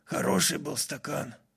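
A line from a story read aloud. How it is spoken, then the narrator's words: Quiet. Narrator (Russian): Шериф Каном тихо произнес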